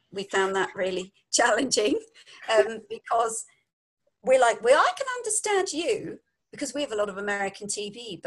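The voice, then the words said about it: London English accent. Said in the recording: “People can't understand our accent. ... We're from London”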